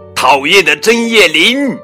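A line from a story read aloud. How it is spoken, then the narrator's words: Loud shout. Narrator (Chinese): 梅奥大声喊道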